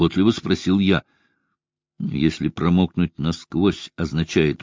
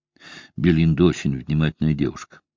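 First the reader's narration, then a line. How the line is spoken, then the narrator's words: Plain. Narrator (Russian): сказал я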